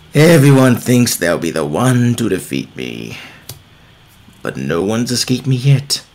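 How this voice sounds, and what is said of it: Menacing villain character voice. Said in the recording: “Can you do his voice? ... You do a good villain”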